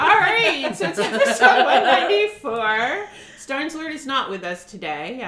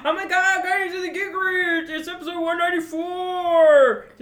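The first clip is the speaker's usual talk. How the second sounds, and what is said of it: Imitates another person's voice. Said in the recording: “pretty good Starnslord impersonation”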